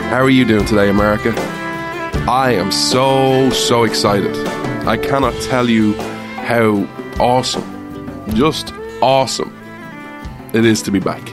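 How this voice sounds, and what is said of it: Irish accent. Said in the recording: “Irish man ... come for the accent”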